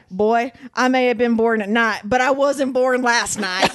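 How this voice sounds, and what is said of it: Thick southern accent. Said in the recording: “he has this thick southern accent”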